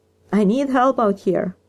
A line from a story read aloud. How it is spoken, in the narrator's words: Jan shouted, her voice coming out high and shrill